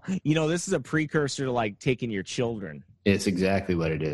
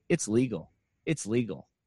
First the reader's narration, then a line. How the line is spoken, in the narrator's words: Park responded calmly